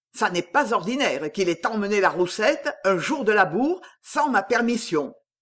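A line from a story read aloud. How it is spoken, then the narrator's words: Angry tone. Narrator (French): Il disait cela d'un ton de colère, les sourcils froncés, car c'était la première fois qu'un fils prenait une telle liberté à la genivière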